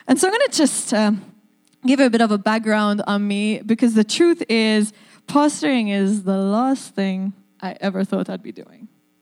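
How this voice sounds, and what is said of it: Maltese accent. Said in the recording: “yes, I have an accent ... I am from the island of Malta”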